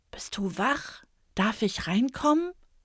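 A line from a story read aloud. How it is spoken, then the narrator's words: Whisper. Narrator (German): flüstert er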